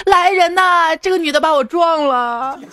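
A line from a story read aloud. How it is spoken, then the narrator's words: Older woman shouting. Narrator (Chinese): 大妈喊道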